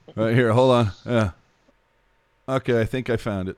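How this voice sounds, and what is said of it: Imitates another person's voice. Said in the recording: “my impression really quick. Here's my impression of Puck Guy looking for a silver lining.”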